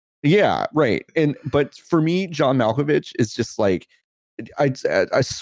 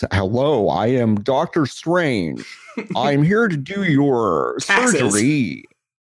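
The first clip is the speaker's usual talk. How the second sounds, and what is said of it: Benedict Cumberbatch's American accent impression. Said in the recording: “Liam Neeson or Benedict Cumberbatch do an American accent,”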